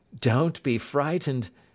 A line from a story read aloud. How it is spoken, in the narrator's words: said my employer, laughing